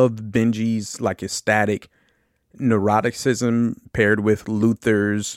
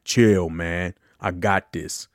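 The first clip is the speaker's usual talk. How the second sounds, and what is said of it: Imitates another person's voice. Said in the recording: “So that's my Ving Rhames. That's my second impersonation. Hopefully that one's better.”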